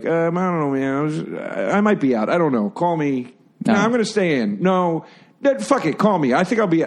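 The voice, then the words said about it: Impression of Sam Rockwell. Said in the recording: “he would do an impression of Sam leaving him voicemail messages”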